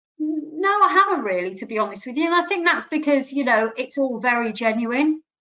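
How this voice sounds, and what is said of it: Birmingham accent. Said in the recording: “My dulcet Birmingham tones.”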